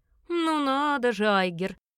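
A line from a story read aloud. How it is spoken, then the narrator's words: Booming laugh, man. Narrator (Russian): громогласно хохотнул темноволосый мужчина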